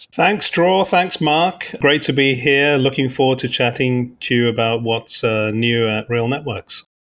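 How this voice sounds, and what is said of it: London English accent. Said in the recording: “you can probably tell from my accent that I'm not a West Coaster. So I grew up in London”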